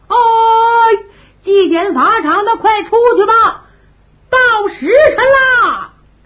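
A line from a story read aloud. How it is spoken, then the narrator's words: Someone shouting. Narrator (Chinese): 有人喊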